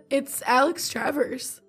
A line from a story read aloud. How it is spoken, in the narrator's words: the young librarian added in a giddy tone